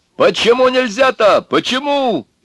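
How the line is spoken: Shouting into phone. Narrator (Russian): орал он в трубку

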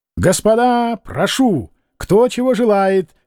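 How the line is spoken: Shouting. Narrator (Russian): кричал Кононов

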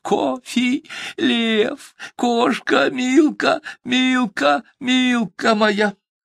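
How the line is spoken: Shouting through tears. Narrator (Russian): сквозь слезы кричала

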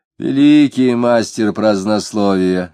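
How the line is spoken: Lazy, annoyed. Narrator (Russian): лениво, однако с явной досадой сказал Попов

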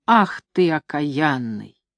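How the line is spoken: Hissing. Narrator (Russian): Бабушка зашипела

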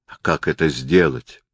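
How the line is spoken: Gloomy, prince. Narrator (Russian): мрачно произнес князь

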